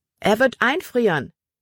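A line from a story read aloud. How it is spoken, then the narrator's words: Calling out. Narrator (German): rief Libby Emma zu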